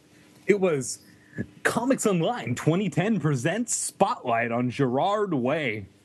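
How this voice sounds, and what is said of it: Dramatic announcer voice. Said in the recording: “I get excited when I do my announcer voice.”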